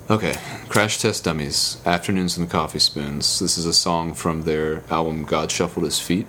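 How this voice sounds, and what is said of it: Smooth radio announcer voice. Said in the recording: “use your radio voice ... My radio voice”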